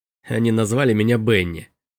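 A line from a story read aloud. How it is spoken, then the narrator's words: Snorting. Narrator (Russian): фыркнул Робби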